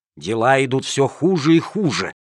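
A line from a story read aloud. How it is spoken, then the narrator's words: Hissing with anger. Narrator (Russian): шипели они, позеленев от злости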